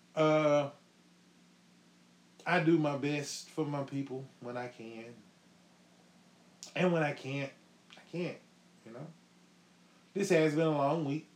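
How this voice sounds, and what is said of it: Sick, unsteady congested voice. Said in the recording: “I'm sick as a dog trying to get over a cold ... my voice is kind of all over the place”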